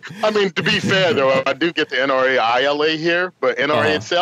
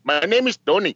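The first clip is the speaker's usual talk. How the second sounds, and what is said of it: Bad attempt at a Russian accent. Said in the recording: “You need to get a Russian accent... Nope, only Indian... That's not the right accent... That was very bad”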